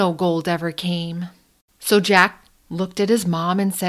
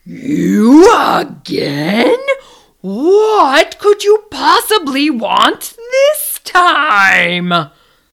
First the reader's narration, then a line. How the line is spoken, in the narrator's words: the North Wind bellowed